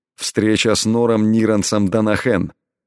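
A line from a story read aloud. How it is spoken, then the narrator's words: Indifferent tone. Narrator (Russian): безразличным тоном ответил Элай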